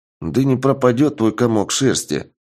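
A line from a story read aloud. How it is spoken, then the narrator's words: Gruff grunt. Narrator (Russian): буркнул Шуст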